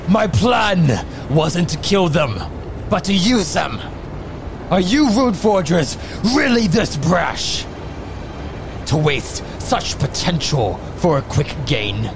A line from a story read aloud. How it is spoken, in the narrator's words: Krogo yells out